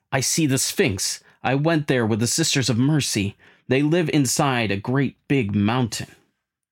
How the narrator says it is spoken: he exclaims

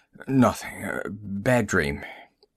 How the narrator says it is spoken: He mumbled

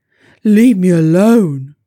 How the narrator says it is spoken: growled the stuck bear

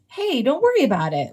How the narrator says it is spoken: Winston replied cheerfully

